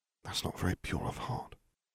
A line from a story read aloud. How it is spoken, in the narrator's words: Harry whispered